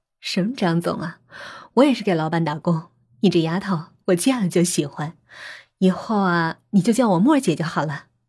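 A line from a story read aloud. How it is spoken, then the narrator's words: Laughing. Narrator (Chinese): 张默笑了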